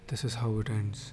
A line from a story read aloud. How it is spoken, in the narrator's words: whispered